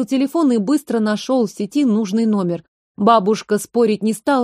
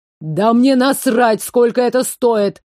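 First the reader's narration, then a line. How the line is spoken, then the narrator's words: Barked into phone. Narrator (Russian): рявкнул парень в трубку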